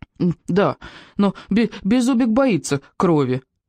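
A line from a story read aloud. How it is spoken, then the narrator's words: Whimpering little dragon. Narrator (Russian): хныкал дракончик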